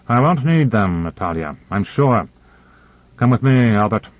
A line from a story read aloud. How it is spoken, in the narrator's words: Konyev turned from her impatiently and said